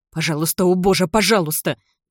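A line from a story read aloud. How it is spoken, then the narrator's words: Desperate mumble. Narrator (Russian): бормочет Довер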